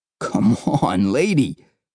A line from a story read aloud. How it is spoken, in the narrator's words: practically begged